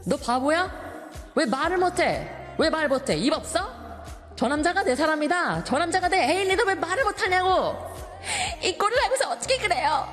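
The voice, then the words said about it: Angry snapping drama character impression. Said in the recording (Korean): “성대모사 ... So I'm going to try to do an impression of a specific scene from this drama ... So the man basically snapped at this lady, right?”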